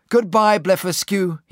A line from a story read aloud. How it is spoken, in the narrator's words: cried